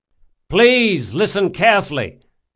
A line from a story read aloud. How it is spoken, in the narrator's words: shouted Locke